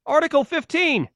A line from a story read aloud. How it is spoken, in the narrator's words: Liz yelled